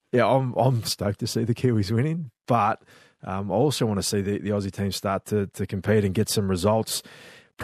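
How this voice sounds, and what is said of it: Australian accent. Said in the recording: “I know I've got an Aussie accent”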